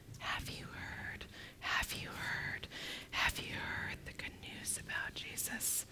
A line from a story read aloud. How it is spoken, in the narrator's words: she said in a very quiet voice